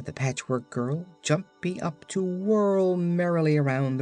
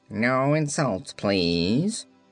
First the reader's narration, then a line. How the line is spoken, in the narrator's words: answered the phonograph in a surly tone